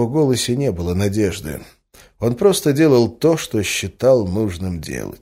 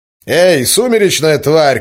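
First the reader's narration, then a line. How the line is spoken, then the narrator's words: Man shouting. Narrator (Russian): крикнул мужчина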